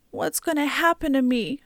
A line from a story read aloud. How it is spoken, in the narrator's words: Nijoni sobbed